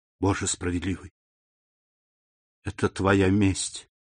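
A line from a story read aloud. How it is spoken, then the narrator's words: Anguished whisper. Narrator (Russian): прошептала госпожа Данглар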